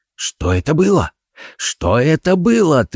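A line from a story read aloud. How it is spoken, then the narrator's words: Agitated repeating. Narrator (Russian): твердил он взволнованным голосом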